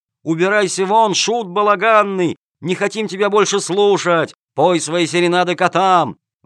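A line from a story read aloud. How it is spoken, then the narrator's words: Crowd yelling loudly. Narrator (Russian): Зрители орали во все горло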